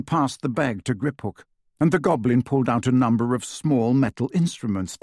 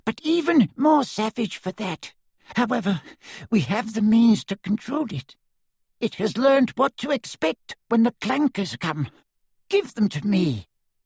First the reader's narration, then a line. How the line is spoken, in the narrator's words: panted Griphook